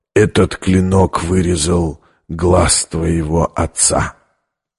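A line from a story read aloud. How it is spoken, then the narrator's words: Close breathy whisper. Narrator (Russian): обжигая ее дыханием, прошептал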